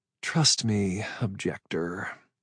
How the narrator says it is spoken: she said, her voice a sleepy drawl

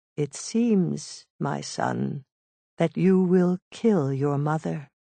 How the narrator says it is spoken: She said calmly

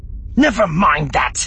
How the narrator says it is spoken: Deesra snapped, almost shaking with fear and rage and frustration

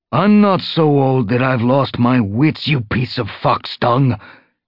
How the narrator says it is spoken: Tall Star snarled

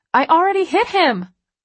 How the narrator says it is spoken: I shout over the music

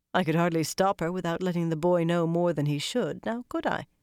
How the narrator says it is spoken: Cadswain replied dryly

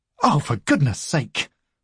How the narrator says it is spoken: snaps Vesper

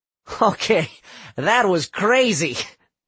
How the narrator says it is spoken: Adelio said with a laugh

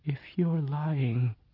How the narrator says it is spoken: she said ever so softly

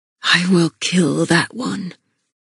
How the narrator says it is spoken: Castile vowed quietly, his voice colder than the air we breathed

